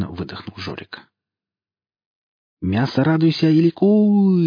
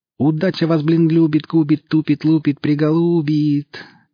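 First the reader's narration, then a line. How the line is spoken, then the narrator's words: Singsong drawl. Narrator (Russian): тянул Перцент нараспев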